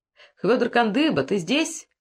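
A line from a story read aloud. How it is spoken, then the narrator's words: Shouted. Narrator (Russian): крикнул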